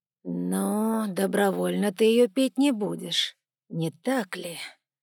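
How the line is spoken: Deceptively gentle drawl. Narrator (Russian): протянул Егор обманчиво ласковым тоном

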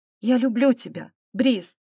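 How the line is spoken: Breathless, near tears. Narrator (Russian): выдохнула, едва не плача

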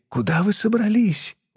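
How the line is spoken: Hoarse voice. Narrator (Russian): охрипший голос Елены

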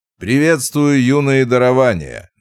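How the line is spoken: Loud greeting. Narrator (Russian): громко произнес Вовка

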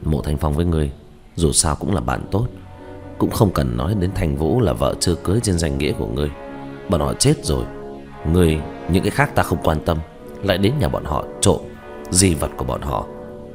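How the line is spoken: Sighing. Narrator (Vietnamese): thở dài

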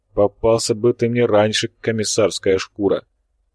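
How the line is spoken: Dreamy sigh. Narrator (Russian): мечтательно вздохнул полковник

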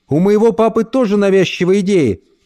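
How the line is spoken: Shouted. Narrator (Russian): крикнула Эльса

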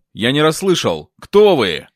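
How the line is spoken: Insistent demanding shout. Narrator (Russian): снова с нажимом требовательно прокричал

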